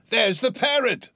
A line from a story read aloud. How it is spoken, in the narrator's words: cried Scrooge